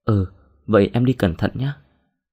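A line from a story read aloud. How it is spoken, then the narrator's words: Smiling. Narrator (Vietnamese): Đồng mỉm cười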